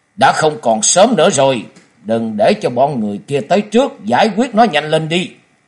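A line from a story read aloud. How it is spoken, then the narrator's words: Harsh sudden command. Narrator (Vietnamese): Một trong hai gã đột nhiên gằn giọng ra lệnh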